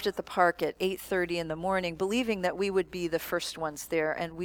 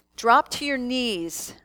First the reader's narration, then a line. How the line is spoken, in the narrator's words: called out